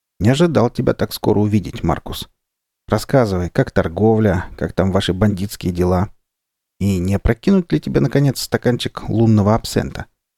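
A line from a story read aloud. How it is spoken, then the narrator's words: Grim chuckling reply. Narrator (Russian): Человек по имени Маркус мрачно усмехнулся и сказал в ответ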